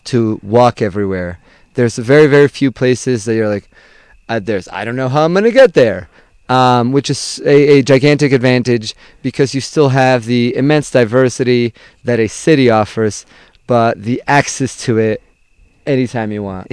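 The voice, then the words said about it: Speaks with a distinct accent. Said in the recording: “your accent, like your, the way you talk... You've got a real good accent.”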